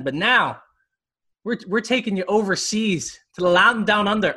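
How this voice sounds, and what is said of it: Poor put-on Australian accent. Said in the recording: “That was such a terrible accent. ... was that Scottish?”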